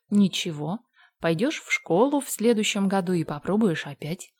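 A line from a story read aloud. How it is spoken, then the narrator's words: Calm. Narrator (Russian): ответила спокойно Марила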